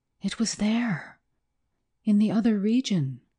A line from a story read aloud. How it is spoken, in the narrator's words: he gasped